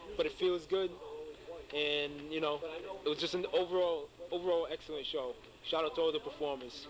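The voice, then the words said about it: Somewhat hoarse voice. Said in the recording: “my voice is kind of hoarse,”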